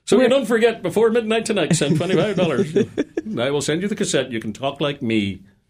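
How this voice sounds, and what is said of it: Irish Belfast accent. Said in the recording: “you have a very nice Irish accent ... You too can have a Belfast accent”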